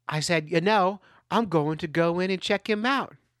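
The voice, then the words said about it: Put-on Australian accent. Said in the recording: “You're welcome for that accent.”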